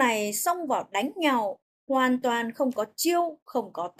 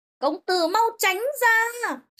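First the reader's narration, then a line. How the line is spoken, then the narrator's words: Terrified scream. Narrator (Vietnamese): Một tiếng thét kinh hãi vang lên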